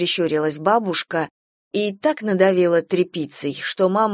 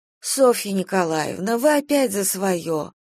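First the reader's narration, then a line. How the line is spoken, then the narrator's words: Sighing. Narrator (Russian): вздохнула мама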